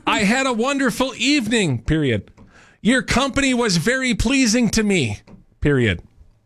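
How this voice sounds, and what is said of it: Yelling. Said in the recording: “Am I supposed to read it like I'm yelling? ... he sounds like he's like yelling.”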